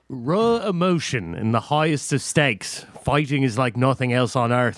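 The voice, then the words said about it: Attempted British accent sounding Irish. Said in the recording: “can you do it in a British accent, please? ... It's Irish.”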